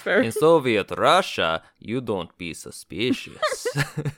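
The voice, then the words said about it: Put-on Russian accent. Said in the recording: “I don't know how to say that in a Russian accent”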